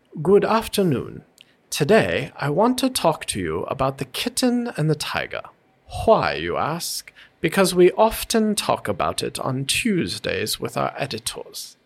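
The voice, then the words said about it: Put-on mid-Atlantic accent. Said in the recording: “with the mid Atlantic accent”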